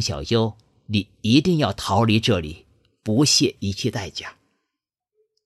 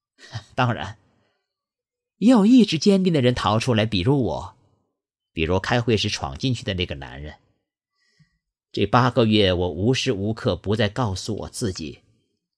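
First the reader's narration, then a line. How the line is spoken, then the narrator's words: Chuckling. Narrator (Chinese): 江小优嘿嘿一笑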